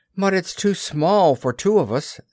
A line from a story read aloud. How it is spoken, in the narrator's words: said Christopher Robin sadly